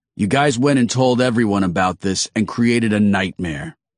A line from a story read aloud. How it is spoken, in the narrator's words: he said